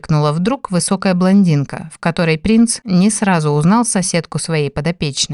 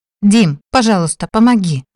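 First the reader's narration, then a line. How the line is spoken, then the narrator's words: Pleading exclamation. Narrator (Russian): воскликнула Нори, глядя на него с мольбой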